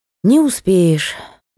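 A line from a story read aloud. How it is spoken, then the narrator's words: Sighing. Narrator (Russian): вздохнула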